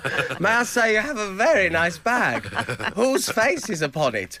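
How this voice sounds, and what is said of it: Imitates a wedding planner character. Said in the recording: “It is just like that wedding planner... a really good niche impression”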